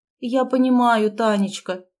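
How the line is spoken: Sigh. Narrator (Russian): вздохнула она

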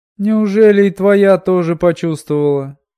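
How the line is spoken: Moaned. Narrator (Russian): простонала Минолли

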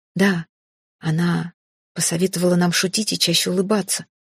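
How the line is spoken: Calm confirmation. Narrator (Russian): спокойно подтвердил Тиш

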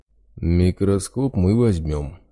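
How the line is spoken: Menacing big man. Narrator (Russian): грозно сообщил торговцу здоровяк

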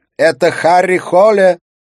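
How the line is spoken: Shouted. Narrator (Russian): прокричала Катрина

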